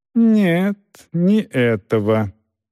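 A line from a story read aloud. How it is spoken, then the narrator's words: Slow older man. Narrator (Russian): медленно говорил немолодой господин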